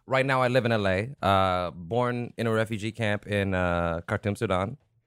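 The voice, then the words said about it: An unusual foreign accent. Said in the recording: “Your accent is weird.”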